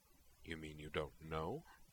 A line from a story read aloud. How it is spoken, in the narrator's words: Arya replied dryly